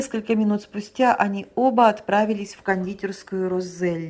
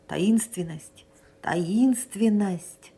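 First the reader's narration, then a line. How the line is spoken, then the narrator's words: Old man whispering twice. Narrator (Russian): старик прошептал 2 раза сряду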